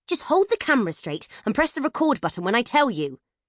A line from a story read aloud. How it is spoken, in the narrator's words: snapped Nat